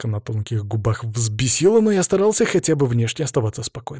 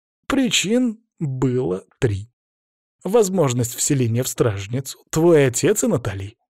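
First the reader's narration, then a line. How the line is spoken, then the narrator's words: Calm listing. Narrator (Russian): перечислил он спокойно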